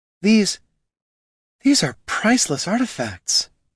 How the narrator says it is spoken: breathed Niln

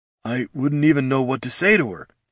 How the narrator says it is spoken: he muttered

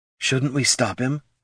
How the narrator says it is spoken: Laruna whispered

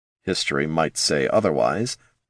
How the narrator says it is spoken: the wizard murmured

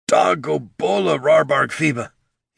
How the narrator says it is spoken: he said, his voice cracking and choked

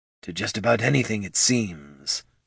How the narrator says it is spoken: grumbled Goldson

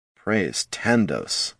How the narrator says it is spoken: muttered Handor

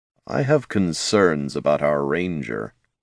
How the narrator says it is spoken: Jin murmured

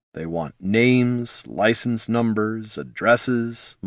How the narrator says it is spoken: muttered Jin

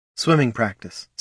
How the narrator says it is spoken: said Laruna

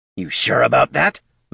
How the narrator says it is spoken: the kobold growled

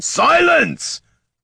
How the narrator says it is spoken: roared Tyron

